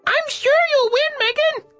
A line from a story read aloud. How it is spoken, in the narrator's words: I called out of the cage